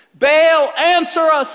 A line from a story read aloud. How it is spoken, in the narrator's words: they shouted